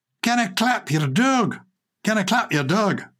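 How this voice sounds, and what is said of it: Put-on Scottish accent. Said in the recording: “That's getting the accent right. I apologise to proper Scots people.”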